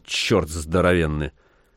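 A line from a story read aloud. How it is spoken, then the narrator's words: Grumble. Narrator (Russian): проворчал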